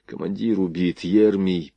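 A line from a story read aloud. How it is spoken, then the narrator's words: Frightened mutter. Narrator (Russian): пробормотал он побелевшими от страха губами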